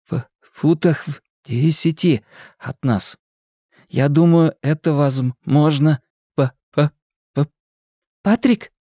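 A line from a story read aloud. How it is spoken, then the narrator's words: Plain question. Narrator (Russian): спросила Беверли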